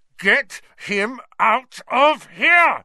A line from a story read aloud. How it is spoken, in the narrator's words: Ron bellowed